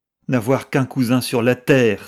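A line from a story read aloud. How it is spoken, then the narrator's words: Passionate exclamation. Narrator (French): s'écria-t-elle avec passion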